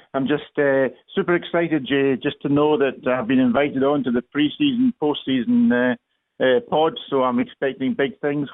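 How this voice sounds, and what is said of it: Scottish accent. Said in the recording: “he's got a funny accent and lives across the pond in Scotland”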